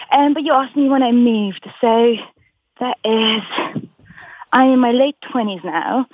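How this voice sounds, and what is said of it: English accent with Scottish twang. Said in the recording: “you have a pitch-perfect English accent ... my English friends would say that I have a Scottish twang, but my Scottish friends would say that I have an English twang”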